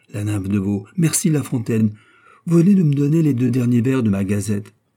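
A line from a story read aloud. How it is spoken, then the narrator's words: Exclamation. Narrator (French): s'écria Loret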